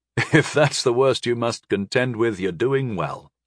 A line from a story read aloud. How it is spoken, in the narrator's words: I chuckled quietly